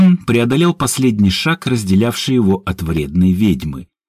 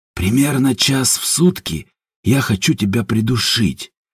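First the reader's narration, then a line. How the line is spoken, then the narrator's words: Low mutter. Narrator (Russian): пробормотал Степан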